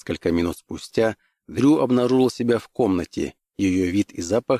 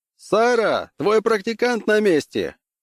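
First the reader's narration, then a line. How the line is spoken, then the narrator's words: Shout. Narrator (Russian): крикнул Лум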